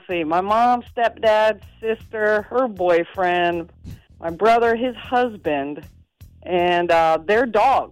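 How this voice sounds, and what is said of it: Alabama Southern accent. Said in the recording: “that little Alabama accent you got going there”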